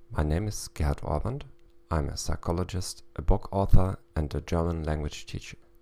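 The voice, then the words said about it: German-accented English. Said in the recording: “with a German accent”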